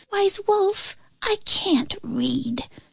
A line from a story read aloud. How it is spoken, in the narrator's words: squeaked a small rabbit